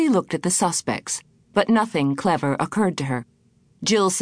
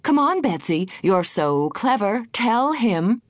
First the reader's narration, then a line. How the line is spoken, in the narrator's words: Godwin said cheerfully